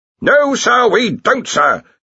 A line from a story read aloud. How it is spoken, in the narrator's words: Ridcully roared